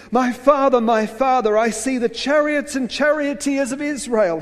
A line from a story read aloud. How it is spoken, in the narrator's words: cried